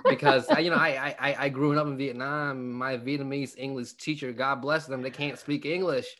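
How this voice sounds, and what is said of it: Accented English with a twang. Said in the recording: “your twang ... my accent”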